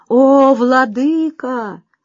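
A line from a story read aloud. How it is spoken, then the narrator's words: Loud. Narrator (Russian): громко сказал Хаджа Насреддин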